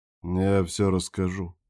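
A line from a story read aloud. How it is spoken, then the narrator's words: Gloomy. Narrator (Russian): мрачно сказал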